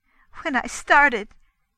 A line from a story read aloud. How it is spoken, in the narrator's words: she blurted out with a bitter little laugh